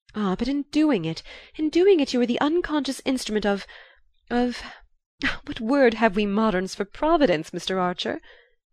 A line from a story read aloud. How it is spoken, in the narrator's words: cried the lady